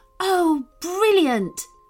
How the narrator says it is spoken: She cried

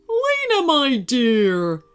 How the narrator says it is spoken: her grandpa exclaimed

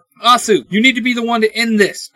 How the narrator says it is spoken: I shout

